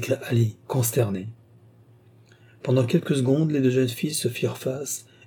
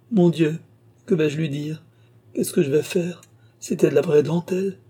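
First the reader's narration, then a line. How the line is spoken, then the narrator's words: Moaning through desperate sobs. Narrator (French): gémit-elle, entre ses sanglots éperdus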